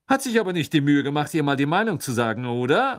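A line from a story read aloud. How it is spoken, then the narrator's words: Speaking loudly. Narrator (German): sagte so laut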